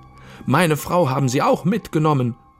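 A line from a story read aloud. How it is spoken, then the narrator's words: Wailing under a helmet. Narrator (German): jammerte der Raumfahrer unter seinem Goldhelm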